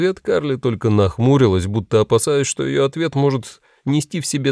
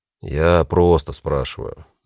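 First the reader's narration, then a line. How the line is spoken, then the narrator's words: Soft addition. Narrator (Russian): мягко добавил Дэн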